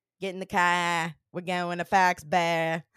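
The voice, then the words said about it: Put-on Boston accent. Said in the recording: “Boston accent ... Spot on. Thought I was there.”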